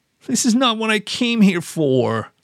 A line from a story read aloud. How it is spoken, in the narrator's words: I whined